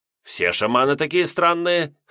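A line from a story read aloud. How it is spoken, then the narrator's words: Snort. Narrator (Russian): хмыкнул он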